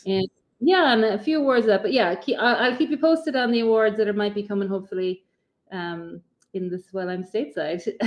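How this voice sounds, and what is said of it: Distinct non-American accent. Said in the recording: “your accent. I love it.”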